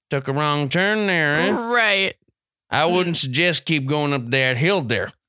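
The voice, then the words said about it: Imitates a small-town local's voice. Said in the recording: “that was a really good impression of like half the people in Kirtland”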